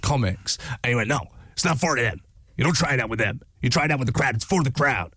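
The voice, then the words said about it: Imitates another person's voice. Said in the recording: “it is a terrible impression”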